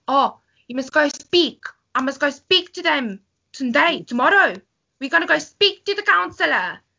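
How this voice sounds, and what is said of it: Afrikaans-accented broken English. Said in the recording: “trying to speak like a proper South African ... she was proper Afrikaans, so her English was broken”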